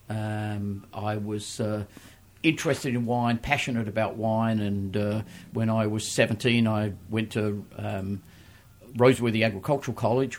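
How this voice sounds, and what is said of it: Australian accent. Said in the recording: “people will probably tell by my accent... I started my wine career in Australia, where I was born”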